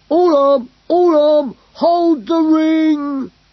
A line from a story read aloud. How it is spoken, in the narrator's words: cried Glurk